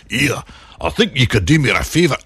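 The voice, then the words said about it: Put-on Scottish accent. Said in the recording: “because he talks like that ... That's my best Scottish accent.”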